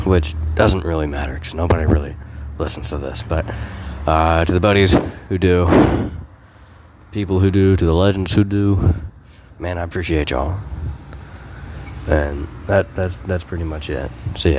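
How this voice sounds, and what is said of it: Hoarse, fading voice. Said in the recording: “I'm losing my voice pretty extravagantly”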